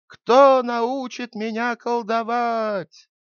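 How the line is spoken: Boy shouting loudly. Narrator (Russian): мальчик стал там кричать громким голосом

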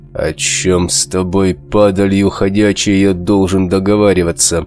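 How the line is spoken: Crisp, through clenched teeth. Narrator (Russian): Четко выговаривая слова, процедил сквозь зубы рвач

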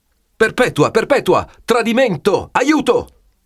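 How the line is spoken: Shouting. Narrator (Italian): Don Abbondio comincia a gridare

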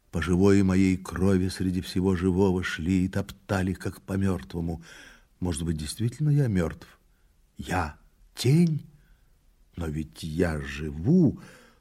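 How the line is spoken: Muttering. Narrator (Russian): опять забормотал

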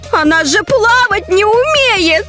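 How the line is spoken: Alarmed shout. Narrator (Russian): закричала Соня

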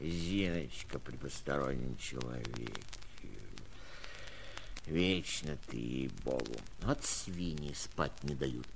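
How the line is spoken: Irritated grumbling. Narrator (Russian): проворчал я, сердясь сам не зная чего

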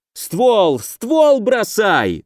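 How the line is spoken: Yelled while moving. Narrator (Russian): заорал на ходу

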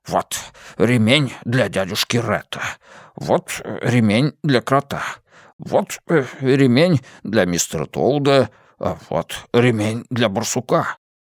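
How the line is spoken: Busy muttering. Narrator (Russian): Трудолюбивый и заботливый дядюшка Ред бормоча

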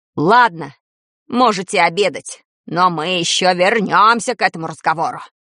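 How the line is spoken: Barked harshly. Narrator (Russian): рявкнул завуч

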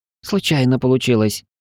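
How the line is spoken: Confused reply. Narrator (Russian): растерянно ответил Пар

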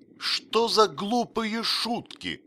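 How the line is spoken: Exclaiming. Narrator (Russian): воскликнул Кордуан Шпиц

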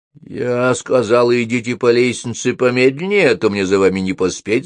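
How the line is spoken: Grumbling. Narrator (Russian): заворчала на него Софи

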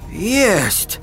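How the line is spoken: Exclamation. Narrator (Russian): воскликнул Леруа

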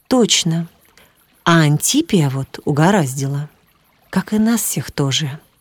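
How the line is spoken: Quiet. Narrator (Russian): тихо добавил Виктор

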